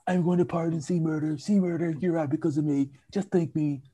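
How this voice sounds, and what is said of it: Fairly accurate Donald Trump impression. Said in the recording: “That was a fairly accurate impersonation.”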